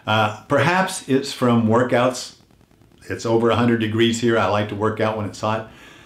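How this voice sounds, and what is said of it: Strained voice, losing his voice. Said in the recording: “Do I sound a little funny to you? I sound funny to me. I feel like I'm losing my voice.”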